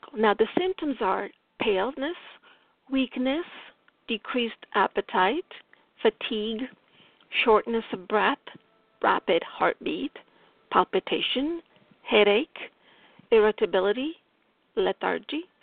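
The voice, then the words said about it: Strong Italian accent in English. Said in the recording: “my Italian accent is strong here.”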